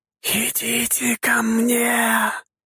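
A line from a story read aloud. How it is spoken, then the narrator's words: Sinister whisper. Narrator (Russian): раздался зловещий шепот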